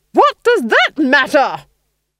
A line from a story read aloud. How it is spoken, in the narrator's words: she roared